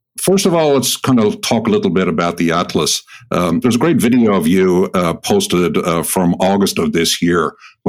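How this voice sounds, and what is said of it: Mid-Atlantic accent with Irish traces. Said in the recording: “some of my idiosyncrasies of my Irish pronunciation have been excised or changed. I have a Mid-Atlantic accent”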